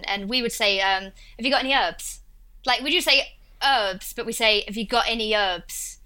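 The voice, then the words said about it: Essex English accent, Cockney-like. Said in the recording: “in my accent, I'm from a place called Essex, which is notorious for having sort of, Cockney rhyming slang ... imagine those old-time Londoners coming to another place. That's what Essex is. And that's what my accent is, like Russell Brand. And it's that accent.”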